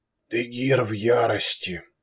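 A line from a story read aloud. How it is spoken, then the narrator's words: Quiet. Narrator (Russian): негромко поведал князь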